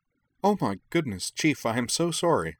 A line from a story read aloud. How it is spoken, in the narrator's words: Tessa sputtered